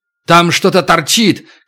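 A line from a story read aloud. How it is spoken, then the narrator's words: Shout. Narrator (Russian): крикнул Туран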